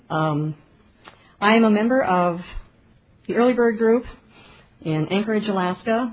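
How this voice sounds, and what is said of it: Emotional, choked-up voice. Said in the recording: “my voice is getting emotional.”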